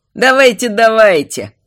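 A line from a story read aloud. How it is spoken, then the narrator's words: Laughing. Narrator (Russian): засмеялся Амирис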